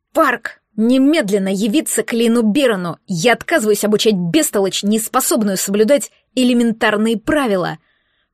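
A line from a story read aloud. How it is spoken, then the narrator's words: Roared. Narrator (Russian): проревел Лин Оми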